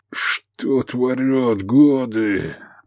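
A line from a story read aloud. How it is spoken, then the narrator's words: Words through gritted teeth. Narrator (Russian): процедил Гефестай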